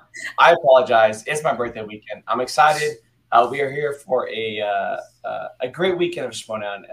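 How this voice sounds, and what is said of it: Hoarse, nearly lost voice. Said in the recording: “I have lost my voice. ... my voice is completely gone.”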